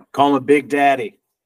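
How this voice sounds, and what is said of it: Put-on New Orleans accent, passable attempt. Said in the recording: “you don't have nearly the right accent for your kids to call you Big Daddy ... Not bad, not bad. I mean, it could use a little bit of work ... sounding like you're from here”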